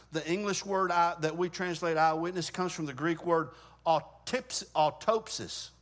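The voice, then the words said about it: Southern twang accent. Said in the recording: “my terrible pronunciation, my southern twang”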